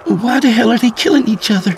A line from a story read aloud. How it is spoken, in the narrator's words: Mary asked frantically